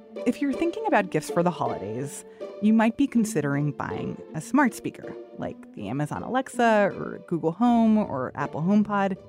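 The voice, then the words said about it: Generalized non-regional American accent. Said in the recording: “if you sound like me ... a native English speaker, if you have a generalized non-regional American accent”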